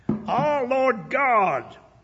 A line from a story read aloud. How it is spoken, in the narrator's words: cried